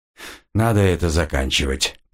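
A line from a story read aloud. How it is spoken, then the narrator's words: Muttered. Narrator (Russian): пробормотал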